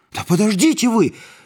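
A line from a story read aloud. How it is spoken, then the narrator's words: Yelling. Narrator (Russian): завопил я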